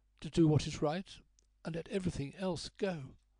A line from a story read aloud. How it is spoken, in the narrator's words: her voice faltered